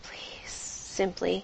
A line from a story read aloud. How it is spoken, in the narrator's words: She whispered